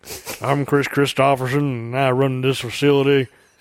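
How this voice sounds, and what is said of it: Imitates another person's voice. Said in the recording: “I enjoy imitating him”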